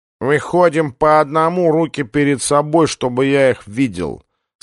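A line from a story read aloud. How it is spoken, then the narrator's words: Nasal voice over loudspeaker. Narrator (Russian): сказал гнусавый голос, усиленный динамиком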